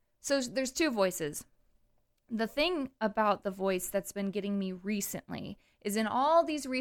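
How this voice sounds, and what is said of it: Usual voice. Nothing is said of it.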